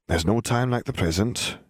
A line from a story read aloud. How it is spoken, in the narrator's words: mumbled